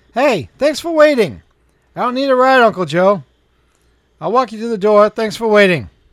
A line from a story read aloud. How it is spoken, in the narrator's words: said pretty loudly